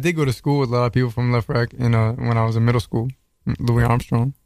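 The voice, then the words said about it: Distinctive New York-area accent. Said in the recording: “sexy voice in there. So, sexy accent, I should say. ... Accent. He from Queens. ... They don't talk like that in Queens.”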